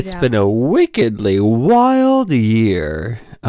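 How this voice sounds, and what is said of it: Imitates another person's voice. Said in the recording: “that was my worst John Travolta impression.”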